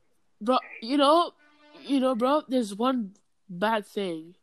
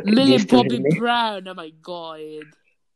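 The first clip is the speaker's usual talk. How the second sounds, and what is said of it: Put-on British accent. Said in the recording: “trying on the British accent”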